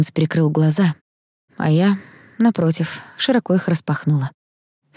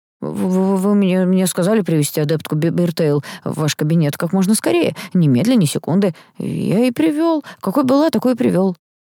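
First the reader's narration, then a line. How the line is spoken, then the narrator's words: Stammering. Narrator (Russian): запинаясь, ответил секретарь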